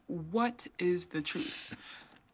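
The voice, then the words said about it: Imitates another person's voice. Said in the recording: “in my Oprah voice?”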